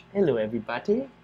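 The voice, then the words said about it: Put-on British accent, poorly done. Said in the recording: “There it is, with the British accent. ... That was even worse. Yeah, I'm not very good at the British accent.”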